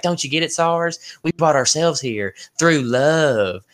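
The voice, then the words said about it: Poor put-on southern accent. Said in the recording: “My southern accent is horrible”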